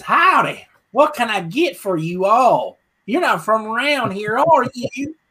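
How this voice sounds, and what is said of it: Put-on Louisiana accent. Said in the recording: “this Louisiana girl with that accent I'm doing right now”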